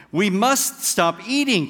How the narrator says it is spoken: cried Toad, as he ate another

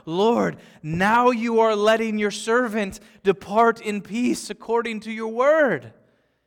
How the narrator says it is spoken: holds Jesus close to his racing heart, he cries out

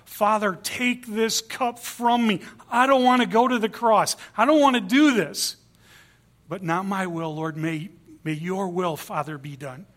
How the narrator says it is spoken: he cried out

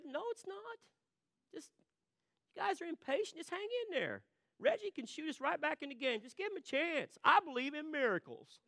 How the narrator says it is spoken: calmly said

